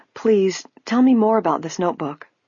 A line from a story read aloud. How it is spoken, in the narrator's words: Nancy's heart gave a leap, but she forced herself to say calmly